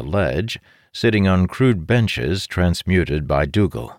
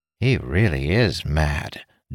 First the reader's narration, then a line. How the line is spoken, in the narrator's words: Dougal muttered